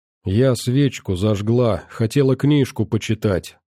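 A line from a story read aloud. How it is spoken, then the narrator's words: Timid interjection. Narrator (Russian): робко вставила Варя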